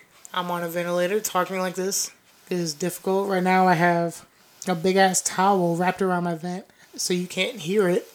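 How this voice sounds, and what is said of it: Raspy, strained voice. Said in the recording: “my voice is getting raspy.”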